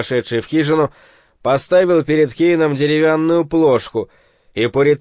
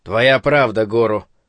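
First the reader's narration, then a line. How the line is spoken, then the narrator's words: Grumbling. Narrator (Russian): проворчал Куроба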